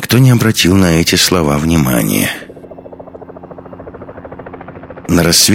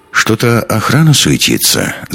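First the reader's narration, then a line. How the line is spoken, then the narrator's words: Thoughtful remark. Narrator (Russian): задумчиво заметил Андерс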